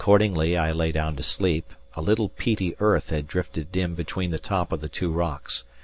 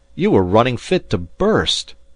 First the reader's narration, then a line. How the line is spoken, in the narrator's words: I cried